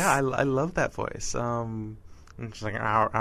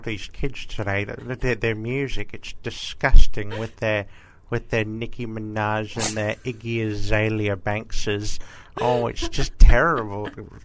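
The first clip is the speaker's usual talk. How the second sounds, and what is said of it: Grandmotherly old woman voice. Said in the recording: “you do a really good voice. It's like a grand, a sort of ... grandmotherly ... voice.”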